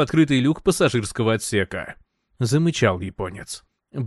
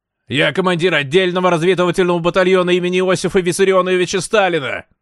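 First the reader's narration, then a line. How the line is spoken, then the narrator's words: Shouted. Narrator (Russian): прокричал Брехт в темноту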